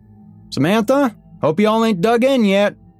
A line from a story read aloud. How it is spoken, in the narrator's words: Jerry hollered across